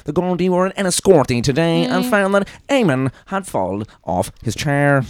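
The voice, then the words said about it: Newsreader voice with odd intonation. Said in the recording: “RTE Radio 1 news or even just, like, TV, like, 6-1 news sentences ... It's always that weird intonation”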